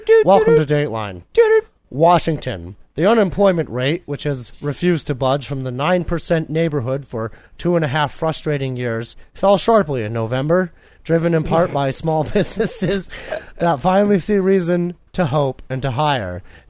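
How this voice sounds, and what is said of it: Walter Cronkite newscaster impression. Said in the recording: “should I do the Walter Cronkite voice?”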